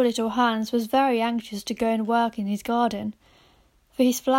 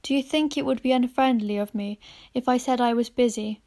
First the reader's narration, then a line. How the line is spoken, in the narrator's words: inquired, in a shy and timid voice